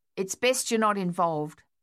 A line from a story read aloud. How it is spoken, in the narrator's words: Thaddeus replied